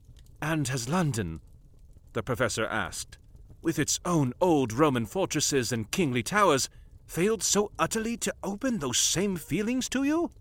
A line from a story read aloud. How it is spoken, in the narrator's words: Molly sighed